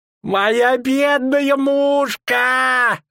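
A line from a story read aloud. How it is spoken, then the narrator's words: Sudden woman's wail. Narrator (Russian): Вдруг взвыла торговка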